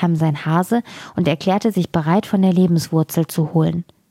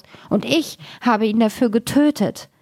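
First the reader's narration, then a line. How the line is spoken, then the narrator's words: Loud wailing. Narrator (German): jammerte laut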